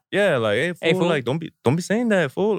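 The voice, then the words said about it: Put-on Mexican-American accent. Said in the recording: “with the Mexican accent, like, hey, fool.”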